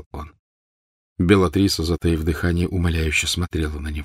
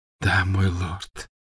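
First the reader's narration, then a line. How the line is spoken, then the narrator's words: Tearful grateful whisper. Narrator (Russian): прошептала Беллатриса, и глаза ее снова наполнились слезами благодарности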